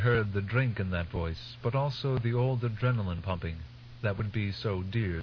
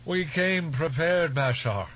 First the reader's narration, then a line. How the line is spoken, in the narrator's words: someone out in the room shouted